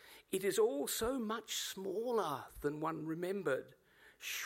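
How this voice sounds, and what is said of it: Usual voice. Nothing is said of it.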